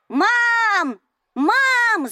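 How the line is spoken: Terrifying yell. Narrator (Russian): заорала она так, что мне стало страшно

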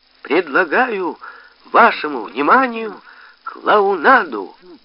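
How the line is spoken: Uncertainly loud announcement. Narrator (Russian): неуверенно громким голосом объявил Борис Кутырев

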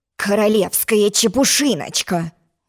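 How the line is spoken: Angry royal grumble. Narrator (Russian): злобно проворчал король

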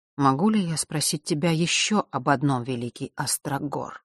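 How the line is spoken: Quiet. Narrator (Russian): начал тихо Нортон Огнев

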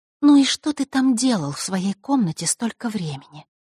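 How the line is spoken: Even-voiced question. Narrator (Russian): ровным голосом спросила она, решив сменить тактику

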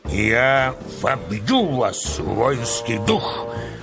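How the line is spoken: Hoarse commanding bass shout. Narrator (Russian): кричал полководец хриплым начальственным басом

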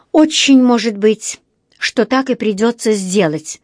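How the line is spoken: Through gritted teeth. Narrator (Russian): сквозь зубы процедила миссис Смит-Чомли

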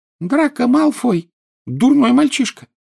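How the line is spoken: Angry squeak. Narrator (Russian): сердито пропищал Добби

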